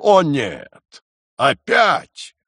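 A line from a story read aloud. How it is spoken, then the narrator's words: Dismayed exclamation. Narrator (Russian): Войнич, вспомнив, что уже встречал их раньше, воскликнул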